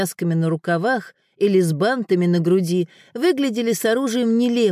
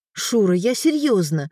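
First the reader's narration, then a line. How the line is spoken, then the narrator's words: Exclaimed. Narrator (Russian): воскликнула Элеонора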